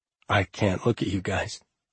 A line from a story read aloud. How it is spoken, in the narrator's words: he said quietly, and a few tears dropped